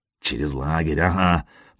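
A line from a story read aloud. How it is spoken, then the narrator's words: Quiet snort. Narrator (Russian): Машек тихонько фыркнул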